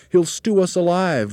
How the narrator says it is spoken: wailed a second

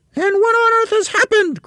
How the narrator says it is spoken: cried Mrs

